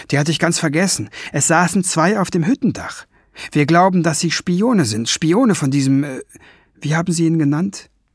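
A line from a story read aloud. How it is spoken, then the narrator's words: Calling out. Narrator (German): rief Ben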